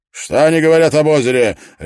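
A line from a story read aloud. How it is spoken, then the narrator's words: Tense barked. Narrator (Russian): рявкнул он, прищурившись и напрягшись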